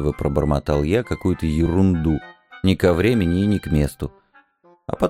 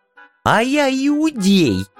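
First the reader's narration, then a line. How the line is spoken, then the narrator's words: Shrill, from behind gates. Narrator (Russian): визгливо раздалось из-за ворот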